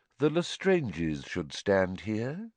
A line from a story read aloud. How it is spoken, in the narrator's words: said Voldemort quietly